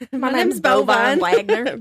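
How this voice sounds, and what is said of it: Put-on hillbilly accent. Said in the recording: “With your hillbilly accent.”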